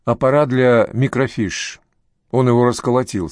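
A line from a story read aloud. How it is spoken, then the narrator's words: Plain. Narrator (Russian): сказала Сакс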